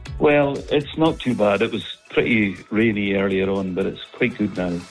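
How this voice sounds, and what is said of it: Scottish accent. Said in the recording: “You've got such a lovely accent.”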